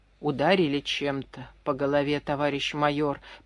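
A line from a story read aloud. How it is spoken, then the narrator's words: Muttered. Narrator (Russian): пробормотал Паншин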